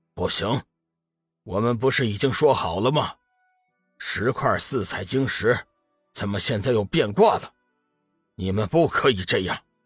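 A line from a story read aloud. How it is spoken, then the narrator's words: Flat and calm. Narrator (Chinese): 闪电三号淡淡的说道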